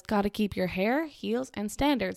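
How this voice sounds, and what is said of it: Put-on Southern accent. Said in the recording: “I said it with a southern accent”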